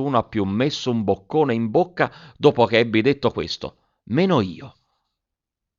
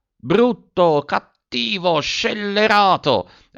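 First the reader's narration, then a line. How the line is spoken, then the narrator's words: Angry woman's exclamation. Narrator (Italian): ha esclamato Virginia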